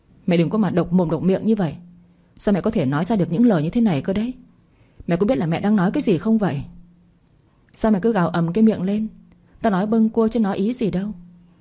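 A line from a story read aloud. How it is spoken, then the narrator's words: Furious husband yelling. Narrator (Vietnamese): Chồng tôi nghe vậy thì hai mắt long sòng sọc quát ầm nhà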